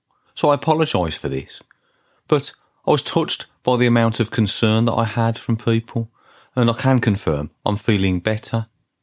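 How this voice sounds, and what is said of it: Brummie Birmingham accent. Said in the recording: “maybe that's the Brummie accent. And, and perhaps people from Birmingham always sound like they've got a cold.”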